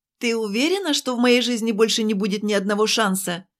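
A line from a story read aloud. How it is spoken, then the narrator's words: Shouted through a door. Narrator (Russian): крикнула я ей в дверь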